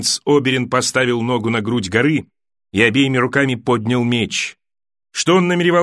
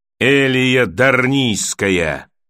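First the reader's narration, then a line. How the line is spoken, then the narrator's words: Muffled boom from helmet. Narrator (Russian): прогудел из-под шлема Григор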